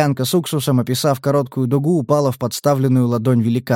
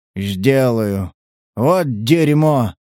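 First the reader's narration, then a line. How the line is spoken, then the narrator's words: Bewildered grumble. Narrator (Russian): Неожиданно растерянным тоном пробурчал Сатурн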